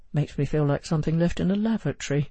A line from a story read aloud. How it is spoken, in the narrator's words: he added under his breath